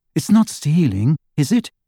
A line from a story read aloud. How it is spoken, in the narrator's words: asked Hermione in a troubled voice